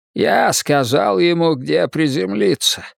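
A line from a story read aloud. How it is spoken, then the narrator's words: Synthetic old man's rasp. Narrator (Russian): прохрипел синтезатор голосом старого поэта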